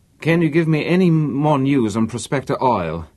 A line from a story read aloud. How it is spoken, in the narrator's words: His voice was tense and weary